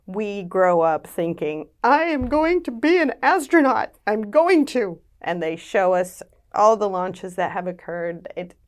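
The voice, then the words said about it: American accent. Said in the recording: “You can tell from my accent, I grew up in the US”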